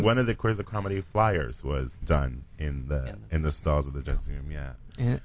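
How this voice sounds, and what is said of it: Deep resonant radio voice. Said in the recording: “I love your voice. It's so deep and ... Just vibrates my ears. ... Radio voice. ... Phone sex operator.”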